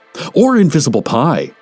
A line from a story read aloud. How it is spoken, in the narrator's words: said another